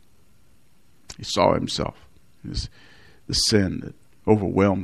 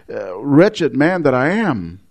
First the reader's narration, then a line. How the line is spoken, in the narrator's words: exclaims